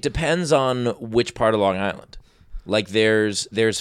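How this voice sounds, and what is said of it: Usual voice. Nothing is said of it.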